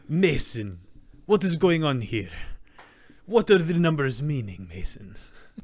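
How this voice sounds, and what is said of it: Put-on Russian accent. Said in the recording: “talking, like, in a Russian accent, like Gary Oldman's Reznov ... sometimes I change my voice”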